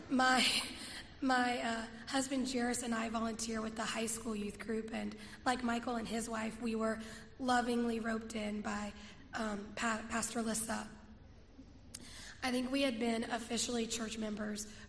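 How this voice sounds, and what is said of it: Rough, not fully recovered voice. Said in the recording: “I need to apologize in advance for my voice... I'm on the other end of a cold... my voice just hasn't caught back up yet”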